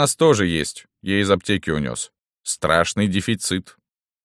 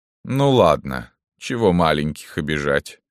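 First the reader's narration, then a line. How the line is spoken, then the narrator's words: Sighing. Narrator (Russian): вздохнула Марфута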